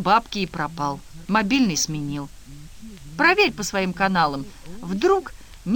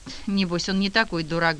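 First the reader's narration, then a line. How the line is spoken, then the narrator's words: Woman sighing. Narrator (Russian): вздохнула дама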